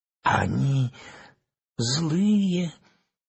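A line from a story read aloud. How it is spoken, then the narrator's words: Trembling little girl. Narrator (Russian): дрожащим голосом спросила девочка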